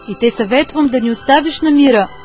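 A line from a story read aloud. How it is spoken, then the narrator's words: Shouting man. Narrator (Bulgarian): извика мъжът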